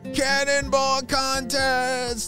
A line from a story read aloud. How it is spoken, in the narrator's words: shouted Julius